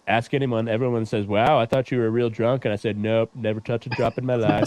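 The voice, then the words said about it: Donald Trump impression. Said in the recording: “Trump impersonation is pretty spot on.”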